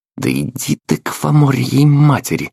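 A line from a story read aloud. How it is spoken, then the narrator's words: Disgusted hiss. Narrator (Russian): прошипел я, скривившись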